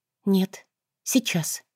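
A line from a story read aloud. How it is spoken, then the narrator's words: Quiet. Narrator (Russian): тихо проговорила она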